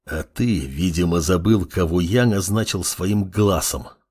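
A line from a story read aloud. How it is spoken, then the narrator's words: Hissed. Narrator (Russian): прошипел Амор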